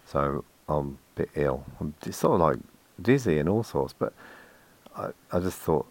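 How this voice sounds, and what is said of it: Unusually deep voice from a cold. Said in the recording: “I've had a cold and a cough and my voice has gone really, really deep.”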